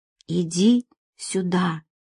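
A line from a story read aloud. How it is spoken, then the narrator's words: Barely audible whisper. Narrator (Russian): прошептала она так тихо, что он едва смог понять смысл этих слов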